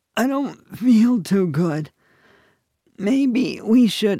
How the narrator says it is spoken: this said with a groan like someone calling out from beneath a boulder

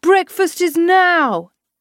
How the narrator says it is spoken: A stern patrician voice thundered through the floorboards

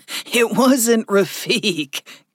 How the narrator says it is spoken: Gregory chuckled

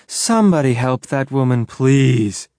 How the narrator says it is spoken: Whenever Mom saw someone wearing a brown dress, she would moan

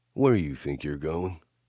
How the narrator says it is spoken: I asked lazily

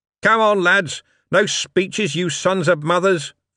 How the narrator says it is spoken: Vimes shouted back

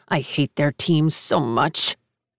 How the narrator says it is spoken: she says with a growl that reveals some serious vitriol for his opponent

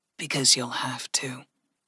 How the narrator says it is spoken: said softly

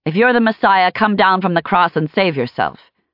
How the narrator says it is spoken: a man yelled

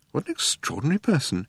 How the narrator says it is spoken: he muttered to himself

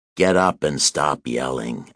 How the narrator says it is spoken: I growled

